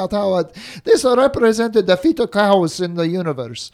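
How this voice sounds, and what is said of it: Russian accent imitation. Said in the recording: “that's a pretty good accent.”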